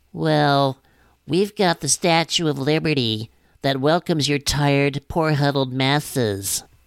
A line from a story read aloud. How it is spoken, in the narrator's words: simpering, whimpering